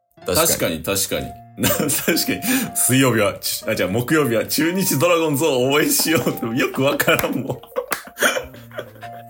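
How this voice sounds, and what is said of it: Kansai dialect accent. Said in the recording (Japanese): “二人とも関西で、関西弁で話してて”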